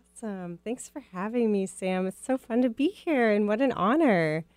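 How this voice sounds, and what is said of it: Midwestern American accent. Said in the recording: “my Midwest accent will probably come out”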